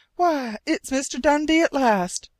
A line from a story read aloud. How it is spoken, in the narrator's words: Penny cried